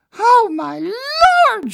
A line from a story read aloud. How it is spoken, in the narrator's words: started screaming